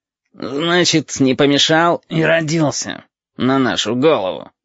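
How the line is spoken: Grumbling, small ball. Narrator (Russian): ворчал темно-красный шарик

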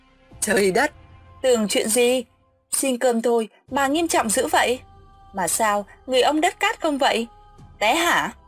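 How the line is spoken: Laughing. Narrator (Vietnamese): Hoa nghe vậy bật cười

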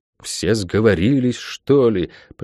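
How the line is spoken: Mutter. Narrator (Russian): пробормотала проклятая

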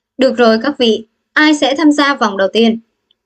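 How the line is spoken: Smiling voice. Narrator (Vietnamese): mỉm cười nói

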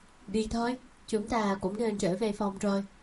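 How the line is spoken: Gentle, smiling. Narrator (Vietnamese): Ngụy Thiệu cũng cười cười, dịu dàng nói

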